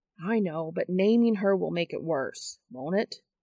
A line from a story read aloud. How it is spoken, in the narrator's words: sighs